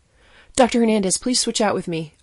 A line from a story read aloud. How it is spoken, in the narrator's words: I blurted